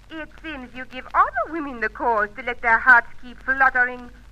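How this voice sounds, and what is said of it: Speaks with a foreign accent. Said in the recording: “You have other friends with the same accent, perhaps ... there's only one voice like yours”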